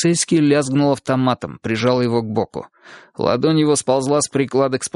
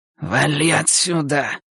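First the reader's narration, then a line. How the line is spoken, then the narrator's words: Hissing. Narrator (Russian): прошипел сержант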